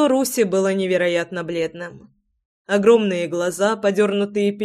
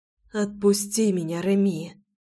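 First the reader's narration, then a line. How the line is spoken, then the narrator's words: Breathless. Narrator (Russian): выдохнула Руся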